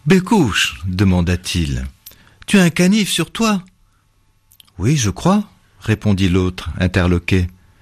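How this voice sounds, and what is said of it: Speaks with a regional French accent. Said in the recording (French): “vous avez l'accent. Moi, si je ne le prenais, ce ne serait qu'une imitation.”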